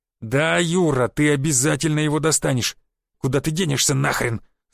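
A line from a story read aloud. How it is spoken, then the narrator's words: Growling. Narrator (Russian): зарычал Борщев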